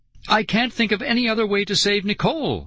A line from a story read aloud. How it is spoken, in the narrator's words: I cried